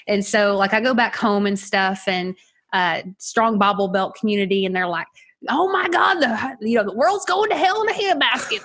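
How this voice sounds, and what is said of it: Southern US accent. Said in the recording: “a lot of my family's Southern. Okay. I don't know if you picked up the accent or not. We're country folk.”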